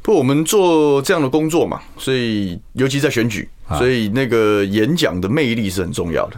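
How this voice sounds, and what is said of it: Clipped endings, sounds like Han Kuo-yu. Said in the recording (Chinese): “口音啊，说话语音后面收得很快，很像韩国瑜”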